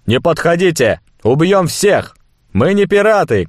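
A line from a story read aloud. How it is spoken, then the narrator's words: Shout. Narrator (Russian): крикнул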